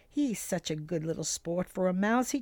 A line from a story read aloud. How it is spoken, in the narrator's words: he chuckled to himself